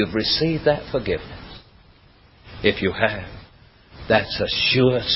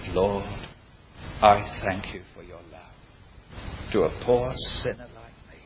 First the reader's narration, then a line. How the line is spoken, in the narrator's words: quietly said